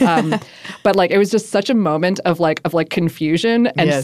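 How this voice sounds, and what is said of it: Usual voice. Nothing is said of it.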